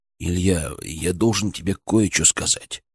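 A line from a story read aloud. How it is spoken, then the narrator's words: Nervous whisper. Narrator (Russian): прошептал он, и его усы нервно подрагивали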